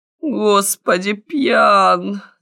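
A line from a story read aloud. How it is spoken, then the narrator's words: Groaning. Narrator (Russian): застонал советник юстиции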